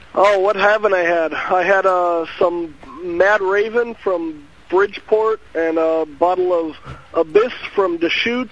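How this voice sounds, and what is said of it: Young voice like Hank Hill. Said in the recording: “He sounds like a young Hank Hill.”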